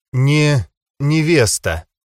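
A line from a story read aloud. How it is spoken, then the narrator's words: Forced out, strained. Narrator (Russian): выдавила Венера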